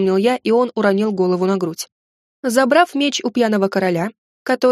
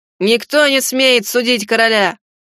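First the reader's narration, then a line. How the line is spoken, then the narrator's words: Angry shout. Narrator (Russian): злобно выкрикнул один из его друзей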